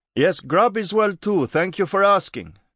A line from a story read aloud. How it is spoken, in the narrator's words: Grubb yelled back